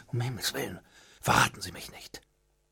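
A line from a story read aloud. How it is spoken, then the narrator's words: Frightened murmur. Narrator (German): Erschrocken raunte zu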